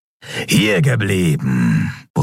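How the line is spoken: Gruff leader's grumble. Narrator (German): brummte ihr Anführer, einer von Kerus Artgenossen

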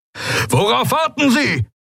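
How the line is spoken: Roar. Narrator (German): brüllte Telios

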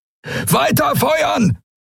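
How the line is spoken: Roared. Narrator (German): brüllte Telios

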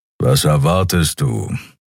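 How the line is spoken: Grumbling. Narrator (German): brummte Keru

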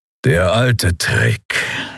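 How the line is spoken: Grudging growl. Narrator (German): knurrte Keru mit widerwilliger Anerkennung

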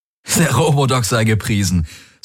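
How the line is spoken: Laughing. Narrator (German): sagte er lachend

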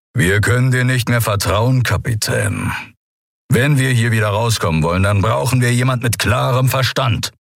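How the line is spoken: Composed growl. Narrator (German): Überraschend gefasst knurrte er

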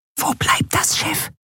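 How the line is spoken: Whisper in ear. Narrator (German): flüsterte Nelen ihr ins Ohr

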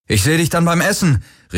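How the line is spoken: Called out. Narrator (German): rief er Kirai zu

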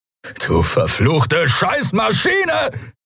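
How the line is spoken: Angry roar. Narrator (German): brüllte er

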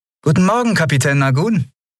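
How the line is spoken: Cheerful greeting. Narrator (German): Lien begrüßte sie fröhlich

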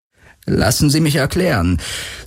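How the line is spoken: Calm, neutral voice. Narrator (German): sagte er und hielt seine Stimme so ruhig und neutral, wie er nur konnte

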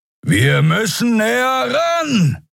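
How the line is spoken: Shouting over howling wind. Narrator (German): rief Kero über den heulenden Fahrtwind

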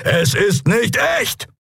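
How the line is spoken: Called out. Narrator (German): rief er

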